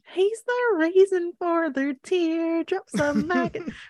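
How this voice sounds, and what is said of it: High-pitched fake country singing voice. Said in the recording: “She did a fake country accent ... why her voice was so high”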